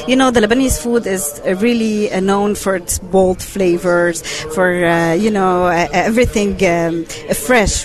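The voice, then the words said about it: French accent. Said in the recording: “I have a French accent.”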